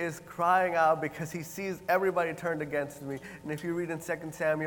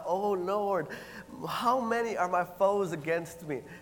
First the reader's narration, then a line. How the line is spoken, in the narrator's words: And David, in the first verse, he cries out